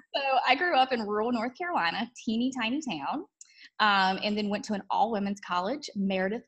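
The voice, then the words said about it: Slight Southern US twang. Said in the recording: “Rural North Carolina, you might detect a little bit of a twang.”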